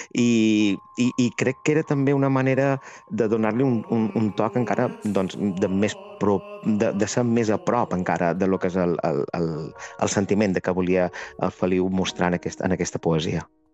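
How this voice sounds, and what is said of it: Strong Majorcan Catalan accent. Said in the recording (Catalan): “jo som mallorquí, tinc l'accent, a més, molt de Mallorca ... hi ha vegades que se m'escapa, no?, com ara mateix estic parlant”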